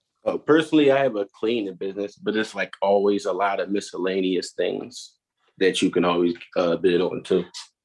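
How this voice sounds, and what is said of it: Philadelphia accent. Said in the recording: “I could tell by the accent... Everybody in Philly speaks the same.”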